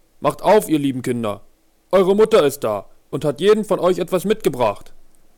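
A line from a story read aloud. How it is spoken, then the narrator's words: Calling out. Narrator (German): jemand ... rief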